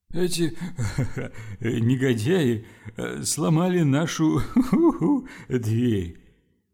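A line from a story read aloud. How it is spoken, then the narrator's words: Moaning. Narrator (Russian): простонал Лофлер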